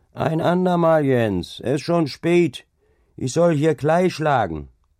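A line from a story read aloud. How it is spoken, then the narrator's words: Calling out. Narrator (German): Der andere aber rief ihm entgegen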